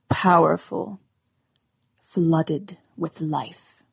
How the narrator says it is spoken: rumbled

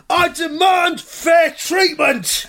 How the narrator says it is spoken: he shouts

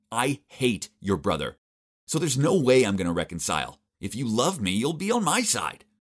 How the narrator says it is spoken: Furiously said

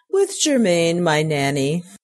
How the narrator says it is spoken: she laughed

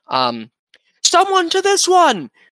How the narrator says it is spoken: He yells out

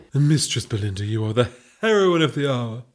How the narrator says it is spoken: purred the Duchess

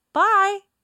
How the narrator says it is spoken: he cheerfully tells her

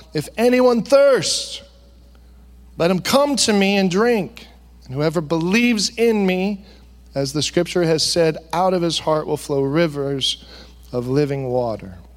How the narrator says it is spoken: Jesus cried out

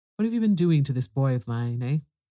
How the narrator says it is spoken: was the next question, sharply put

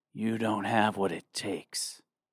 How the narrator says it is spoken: said quietly

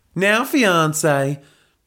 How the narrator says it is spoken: drawled Helga in her southern Texan accent

